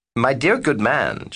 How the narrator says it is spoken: she said

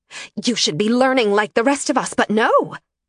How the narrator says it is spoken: Aloha snapped

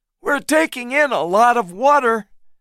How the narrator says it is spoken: Hayes shouted suddenly

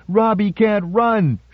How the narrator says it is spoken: she shouted at the top of her 8-year-old voice

